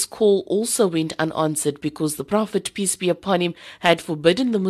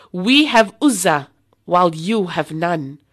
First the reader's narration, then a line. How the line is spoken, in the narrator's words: Abu Sufyan then shouted